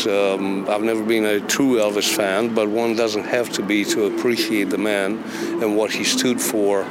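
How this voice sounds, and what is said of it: Romanian accent. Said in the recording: “it's obvious by your accent, you're not from Tupelo ... I'm originally from Romania”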